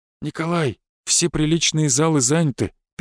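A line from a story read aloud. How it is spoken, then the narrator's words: Sad. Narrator (Russian): печально произнес он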